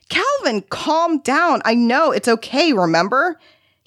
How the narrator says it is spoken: He screamed back at her

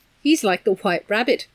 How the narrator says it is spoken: Meg giggled nervously

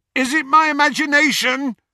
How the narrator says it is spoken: shouted Ron, after a considerable stretch of silence

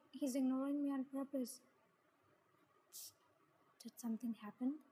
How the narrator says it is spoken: Miang whispered in my ear

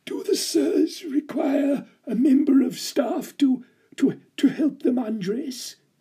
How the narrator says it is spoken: the ancient butler gasped

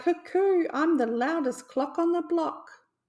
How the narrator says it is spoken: he cried

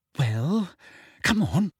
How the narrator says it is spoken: said Hermione slightly nervously

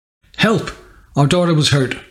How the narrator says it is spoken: cried the mother

